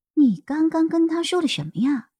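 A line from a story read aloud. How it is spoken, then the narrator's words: Soft question. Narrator (Chinese): 我轻声问他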